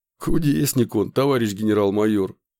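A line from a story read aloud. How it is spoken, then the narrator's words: Chuckling. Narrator (Russian): хохотнул Николай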